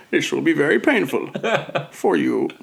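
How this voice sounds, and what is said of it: Imitates a movie villain's voice. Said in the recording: “Decent Bane... doing a Bane impression”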